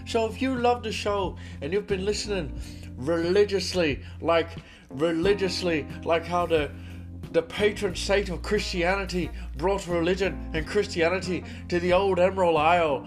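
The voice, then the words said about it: Weak put-on Irish accent, posh British. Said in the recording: “I don't have the greatest Irish accent, but I'm going to try... That went a little bit posh British”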